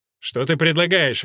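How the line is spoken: Irritated question. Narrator (Russian): раздраженно спросил он Филимона

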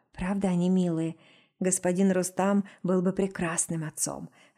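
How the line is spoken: Sighing. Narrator (Russian): вздохнула

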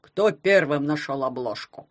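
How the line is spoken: Stern question. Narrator (Russian): строго спросил Поклёп

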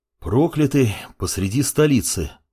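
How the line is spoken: Sigh. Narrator (Russian): вздохнул темный ученик

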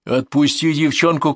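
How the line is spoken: Shouted. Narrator (Russian): крикнул

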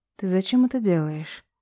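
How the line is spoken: Quiet question. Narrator (Russian): Спрашиваю тихо

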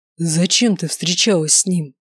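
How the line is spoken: Beastly growl up close. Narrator (Russian): Прорычал он мне в лицо, напоминая того зверя

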